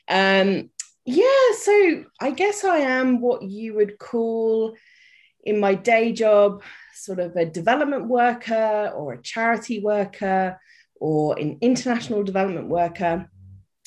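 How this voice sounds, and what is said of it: British accent. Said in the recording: “I am British. You may have guessed by the accent.”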